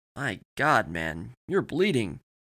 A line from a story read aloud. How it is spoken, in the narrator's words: exclaimed